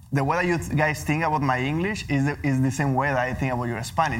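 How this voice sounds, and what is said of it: Non-native accent speaking English. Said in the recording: “my English accent”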